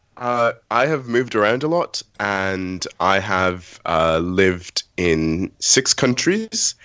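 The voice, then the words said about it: British accent. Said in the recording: “why do you have a British accent? ... I did make a conscious decision to go more British”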